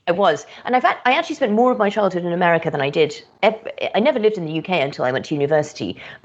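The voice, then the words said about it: British accent. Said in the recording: “it sounds like you have a British accent.”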